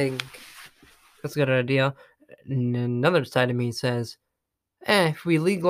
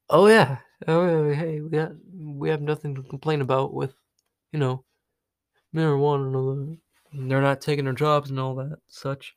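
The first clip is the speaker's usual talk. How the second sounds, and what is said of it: Stoner character voice. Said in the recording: “That's my impression of a stoner.”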